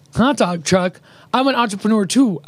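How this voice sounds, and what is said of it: Imitates another person's voice. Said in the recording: “That's a good Liz impression”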